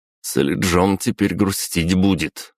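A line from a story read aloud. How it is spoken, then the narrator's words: Smirking. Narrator (Russian): хмыкнул я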